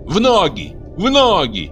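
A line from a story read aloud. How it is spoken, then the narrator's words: Breathless furious scream. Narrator (Russian): задыхаясь от ярости, закричала она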